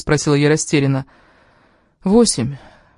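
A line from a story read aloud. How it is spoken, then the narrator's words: Sad woman answering. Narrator (Russian): печально ответила женщина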